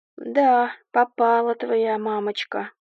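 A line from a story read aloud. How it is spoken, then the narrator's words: Mock-sad. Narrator (Russian): притворно-печально сказал Артем, мой муж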